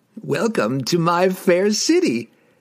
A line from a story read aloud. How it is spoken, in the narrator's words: he laughed wryly